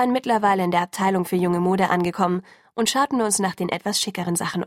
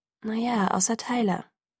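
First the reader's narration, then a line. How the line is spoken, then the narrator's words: Quiet correction. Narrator (German): berichtigte leise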